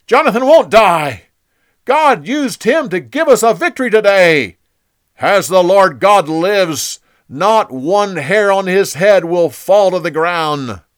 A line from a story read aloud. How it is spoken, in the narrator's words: The people shouted